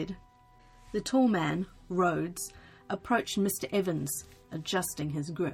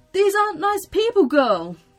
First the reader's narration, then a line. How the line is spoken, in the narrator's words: cried Mr